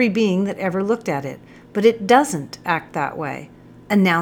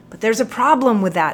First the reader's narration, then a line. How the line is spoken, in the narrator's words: blurted out